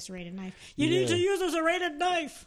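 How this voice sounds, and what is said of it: Imitates another person's voice. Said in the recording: “Good dad impression.”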